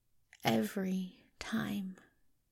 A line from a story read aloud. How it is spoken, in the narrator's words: whispered thickly